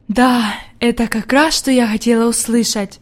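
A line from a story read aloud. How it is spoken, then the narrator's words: Whisper, grandmother. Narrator (Russian): прошептала бабушка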